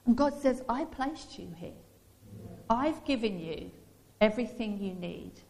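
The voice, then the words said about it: Suffolk English accent. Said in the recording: “I have a Suffolk accent.”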